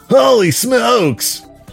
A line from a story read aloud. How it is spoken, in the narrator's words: he yelled